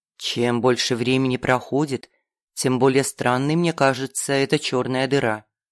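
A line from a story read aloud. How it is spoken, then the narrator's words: Quiet. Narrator (Russian): тихо сказал Самаэль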